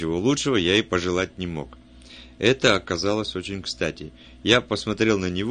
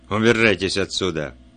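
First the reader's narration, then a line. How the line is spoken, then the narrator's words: Low threatening voice. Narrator (Russian): сказал низким угрожающим голосом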